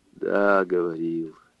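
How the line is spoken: Sighing. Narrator (Russian): вздохнул Тимофей

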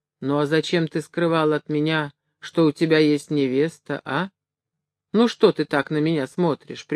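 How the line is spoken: Gentle question. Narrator (Russian): ласково спросил

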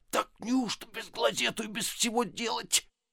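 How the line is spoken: Muttering. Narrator (Russian): по обыкновению бормоча

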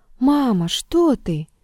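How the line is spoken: Sad plaintive cry. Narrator (Russian): Грустный и светлый, Егорка вскрикнул жалобно

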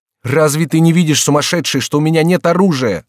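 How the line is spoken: Shouting. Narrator (Russian): закричал Генрих

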